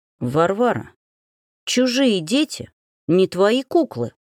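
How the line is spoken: Through gritted teeth. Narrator (Russian): процедил Стрельцов

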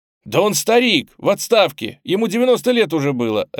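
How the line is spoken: Sharp cry. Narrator (Russian): резко вскрикнул Боб

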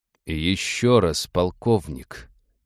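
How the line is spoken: Slow, disbelieving. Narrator (Russian): медленно, словно не веря услышанному, произнес Тайрел

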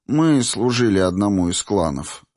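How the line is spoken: Sighing. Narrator (Russian): вздохнула Моро

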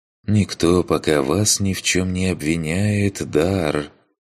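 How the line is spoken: Weary sigh. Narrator (Russian): Устало вздохнул

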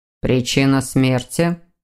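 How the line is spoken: Stern question. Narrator (Russian): строго спросил Александр

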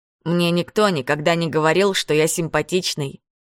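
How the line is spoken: Plain. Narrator (Russian): сказал он

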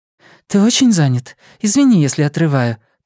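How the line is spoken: Hurried. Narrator (Russian): торопливо проговорила Лиана

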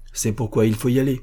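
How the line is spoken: Plain. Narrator (French): répondit Renaud

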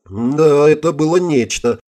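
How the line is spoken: Snide giggle. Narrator (Russian): ехидно захихикала Элен

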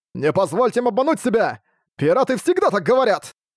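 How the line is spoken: Shouting. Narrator (Russian): Арк выкрикнул

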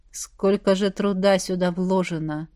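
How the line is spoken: Grumbling. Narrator (Russian): проворчала Оша

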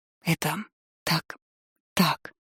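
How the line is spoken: Hoarse, strange mutter. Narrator (Russian): пробормотала чужим, севшим голосом

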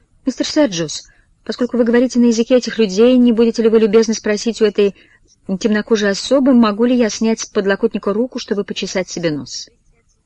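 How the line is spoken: Desperate, trembling childlike voice. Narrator (Russian): Круглое лицо миссис Бойд вдруг принимает выражение полнейшего отчаяния, она говорит дрожащим детским голоском

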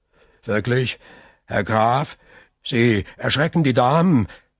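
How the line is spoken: Stammering. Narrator (German): stammelte Villefort

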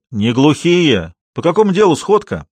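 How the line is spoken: Playful shout. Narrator (Russian): озорной голос крикнул

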